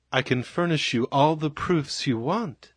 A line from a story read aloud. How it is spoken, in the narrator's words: said Carter gently